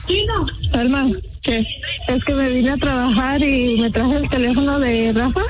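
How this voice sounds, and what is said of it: Put-on Colombian woman's accent. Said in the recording (Spanish): “acento de mujer ... Colombiana”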